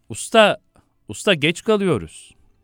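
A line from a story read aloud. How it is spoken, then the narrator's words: Director shouting. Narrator (Turkish): Yönetmen bağırıyor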